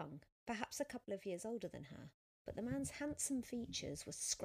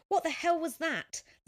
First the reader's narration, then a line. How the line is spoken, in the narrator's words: the cyclist screamed